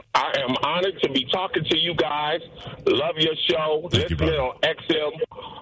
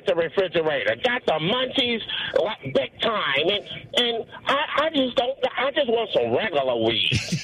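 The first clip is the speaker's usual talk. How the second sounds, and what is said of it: Imitates another person's voice. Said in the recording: “Give us your best Cat Williams impression.”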